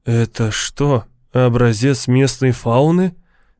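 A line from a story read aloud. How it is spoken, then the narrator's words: Fearful whisper. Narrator (Russian): Боязливым шепотом осведомился Лавон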